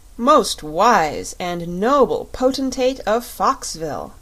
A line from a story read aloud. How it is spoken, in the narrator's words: said the captain in a pompous voice